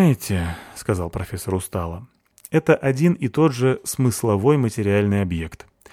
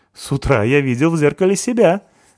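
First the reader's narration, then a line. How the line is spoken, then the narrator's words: Laughing. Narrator (Russian): засмеялся Базин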